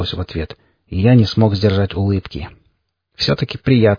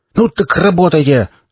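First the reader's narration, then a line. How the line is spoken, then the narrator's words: Angry shout. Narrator (Russian): зло прокричал череп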